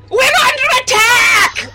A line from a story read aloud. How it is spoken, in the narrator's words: She yells